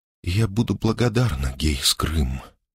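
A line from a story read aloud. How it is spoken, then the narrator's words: Quiet. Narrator (Russian): тихо произнесла она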